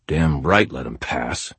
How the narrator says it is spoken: I muttered under my breath

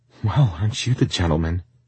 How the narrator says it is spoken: nervously said

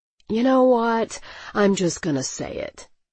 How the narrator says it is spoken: he sighed

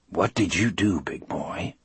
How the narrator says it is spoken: I asked in a low voice

